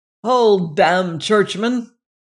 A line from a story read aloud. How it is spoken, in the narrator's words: cried a voice